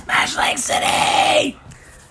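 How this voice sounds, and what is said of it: Heavy metal style shouted voice. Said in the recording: “that's what it sounds like in your heavy metal voice”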